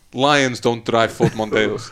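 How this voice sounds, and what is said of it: Deep-voiced Swedish accent impression. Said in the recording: “Is that your Norwegian? ... That's my Swedish. ... Swedish, isn't it? ... Zlatan's got a very deep voice.”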